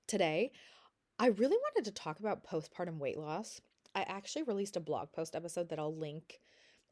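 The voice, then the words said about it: Congested, stuffy-nosed sick voice. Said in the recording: “I am sick ... I'm having a hard time breathing ... my nose is really stuffy, so that's probably why I sound weird”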